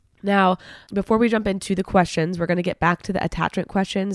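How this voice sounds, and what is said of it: Slightly congested, altered voice. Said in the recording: “I might sound a little weird today because, gosh, I have really bad allergies ... excuse my voice if I sound a little different.”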